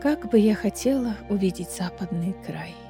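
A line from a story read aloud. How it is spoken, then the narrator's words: Whispered. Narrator (Russian): снова прошептала Манона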